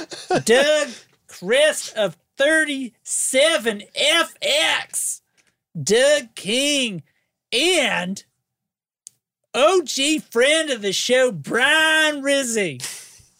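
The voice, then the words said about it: Put-on Kentucky accent. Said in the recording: “That was exceptionally good. ... In Kentucky accent, Brian has one syllable.”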